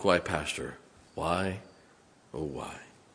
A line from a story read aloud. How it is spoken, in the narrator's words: Her lonely breast and softly ask